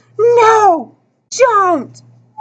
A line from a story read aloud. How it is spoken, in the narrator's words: Several others screamed